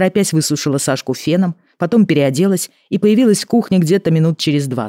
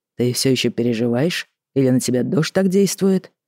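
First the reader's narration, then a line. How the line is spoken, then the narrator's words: Plain. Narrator (Russian): спросил Тагаев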